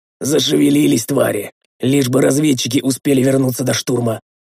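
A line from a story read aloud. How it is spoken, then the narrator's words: Hoarse, sick voice. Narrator (Russian): простуженным голосом прохрипел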